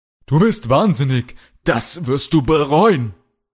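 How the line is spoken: Angry scream. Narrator (German): schrie Kalle

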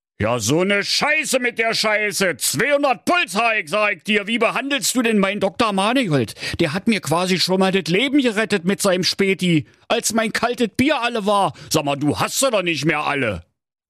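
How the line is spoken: Furious little king bellowing. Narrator (German): Der kleine, kugelrunde König der Cholerische rollte vor Ärger im Dreieck und brüllte

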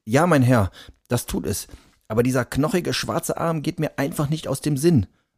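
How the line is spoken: Trembling voice. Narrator (German): sagte er noch immer mit zitternder Stimme

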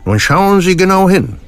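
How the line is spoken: Doctor calling out. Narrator (German): ruft der Arzt

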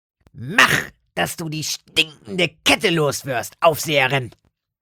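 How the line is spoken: Dull grunt. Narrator (German): grunzte Lotte dumpf

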